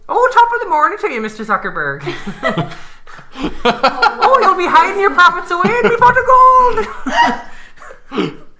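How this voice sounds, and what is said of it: Over-the-top stereotypical Irish accent. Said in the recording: “a very over-the-top stereotypical one ... Irish accent”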